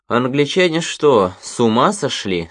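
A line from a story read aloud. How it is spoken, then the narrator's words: Plain. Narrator (Russian): сказал он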